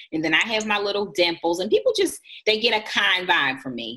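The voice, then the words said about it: Country twang accent. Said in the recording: “people say I have a country accent ... people say I have a country twang”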